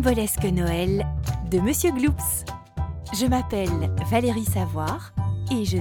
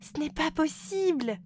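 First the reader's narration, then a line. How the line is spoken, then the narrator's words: Exclaimed. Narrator (French): s'écrie la reine fée de Noël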